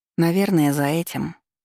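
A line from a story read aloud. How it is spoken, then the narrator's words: Smiling. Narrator (Russian): улыбнулась я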